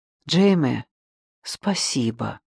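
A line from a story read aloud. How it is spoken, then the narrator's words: Whisper. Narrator (Russian): Яни прошептал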